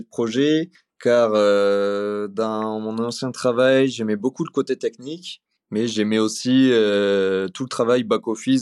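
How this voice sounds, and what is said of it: Slight Toulouse accent. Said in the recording (French): “Il a un petit accent toulousain”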